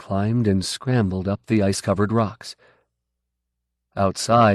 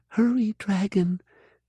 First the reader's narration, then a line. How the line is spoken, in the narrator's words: she whispered